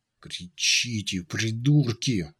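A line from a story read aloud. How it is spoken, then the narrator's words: Hissed. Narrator (Russian): зашипел Унций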